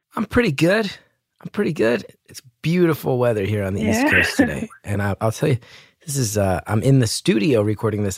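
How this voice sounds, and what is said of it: Slightly strained, blown-out voice. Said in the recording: “My voice is a little blown out because I recorded my special this past weekend, so I've been talking a lot”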